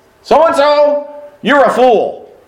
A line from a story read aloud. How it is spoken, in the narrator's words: I barked at him